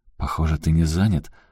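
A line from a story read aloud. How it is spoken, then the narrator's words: Timid smiling. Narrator (Russian): робко улыбнулась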